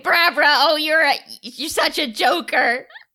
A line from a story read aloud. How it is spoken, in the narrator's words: laugh and I say